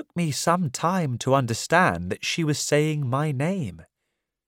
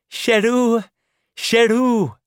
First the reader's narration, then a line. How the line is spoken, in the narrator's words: She spoke excitedly on the phone, screaming and laughing and saying